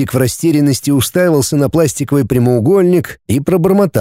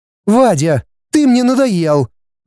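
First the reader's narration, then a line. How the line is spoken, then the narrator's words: Exclaimed. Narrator (Russian): воскликнул Валя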